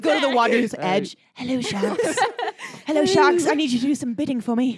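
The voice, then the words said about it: Put-on British accent. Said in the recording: “they have British accents”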